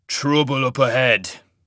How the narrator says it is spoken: growled

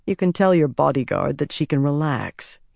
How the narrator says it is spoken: he said dryly

